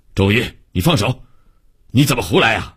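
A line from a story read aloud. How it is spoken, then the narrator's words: Stern scolding. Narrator (Chinese): 王科长 厉声训斥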